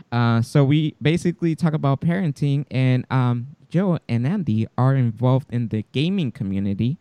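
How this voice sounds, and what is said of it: Non-native English speaker accent. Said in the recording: “my ESL comes out all the time, so I apologize for my accent”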